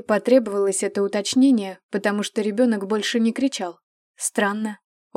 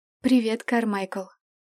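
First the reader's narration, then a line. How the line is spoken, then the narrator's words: Quiet. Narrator (Russian): тихо сказала она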